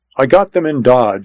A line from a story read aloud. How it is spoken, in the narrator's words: he said